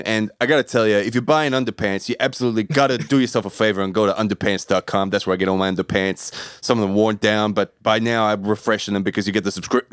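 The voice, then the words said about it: Macho imitation of another person's voice. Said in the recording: “your Maren impersonation ... you gave him a lot of machismo there”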